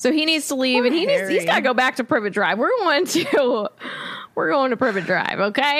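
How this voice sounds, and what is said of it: Usual voice. Nothing is said of it.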